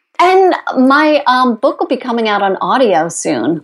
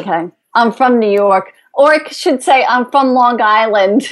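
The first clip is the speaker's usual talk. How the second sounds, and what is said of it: Exaggerated Long Island accent. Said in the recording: “do you want me to say it with that accent?”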